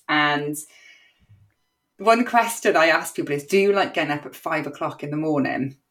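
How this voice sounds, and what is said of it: Welsh Cardiff accent. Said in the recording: “the Welsh leek in me, I don't know if you can tell by my accent that I'm a very proud Cardiff born and bred girl”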